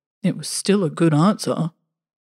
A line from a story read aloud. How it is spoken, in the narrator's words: The clown zombie muttered